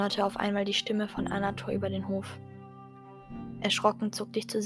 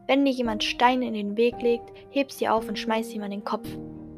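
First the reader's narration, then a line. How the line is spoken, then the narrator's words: Calling back. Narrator (German): rief ich zurück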